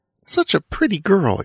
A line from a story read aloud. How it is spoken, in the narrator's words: exclaimed Cora May